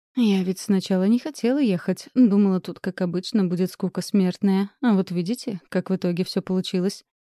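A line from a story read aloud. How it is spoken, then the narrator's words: Giggling. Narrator (Russian): хихикнула мисс Салина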